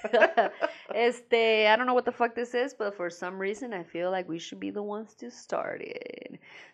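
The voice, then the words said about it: Mexican accent. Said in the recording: “my Mexican accent”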